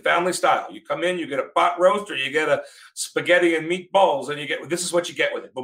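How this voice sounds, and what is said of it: Put-on accent. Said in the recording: “Do you like my accent, by the way?”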